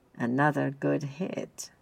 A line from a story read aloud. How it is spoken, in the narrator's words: she purred, sounding rather like her mother